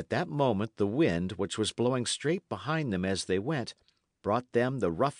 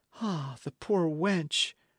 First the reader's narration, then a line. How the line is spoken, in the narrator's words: cried the other